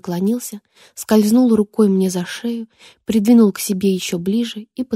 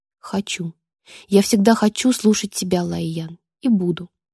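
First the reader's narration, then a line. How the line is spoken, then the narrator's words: Whispered. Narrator (Russian): прошептал Рион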